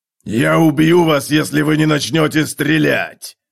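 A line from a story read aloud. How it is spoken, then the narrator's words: Growling. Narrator (Russian): зарычал Готрек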